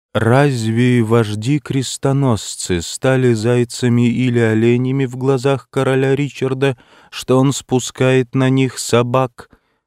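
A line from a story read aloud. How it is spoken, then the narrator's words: Sepulchral voice question. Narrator (Russian): спросил за могильным голосом гроссмейстер ордена тамплиеров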